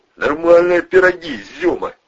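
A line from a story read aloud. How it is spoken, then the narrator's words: Hysterical laughter. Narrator (Russian): истерически засмеялся Волына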